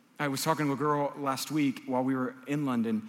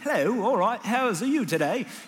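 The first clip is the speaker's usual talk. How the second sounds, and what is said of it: Put-on British accent. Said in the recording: “that's my British accent”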